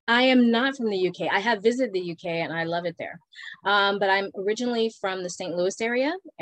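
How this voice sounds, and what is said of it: Non-British accent. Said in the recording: “listeners can tell by your accent that you're not from the UK”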